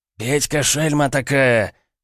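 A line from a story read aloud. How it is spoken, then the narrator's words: Hoarse, thunderous. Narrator (Russian): Голос государя Петра Алексеевича, хриплый, словно он болеет или недавно болел, раздался, как гром среди ясного неба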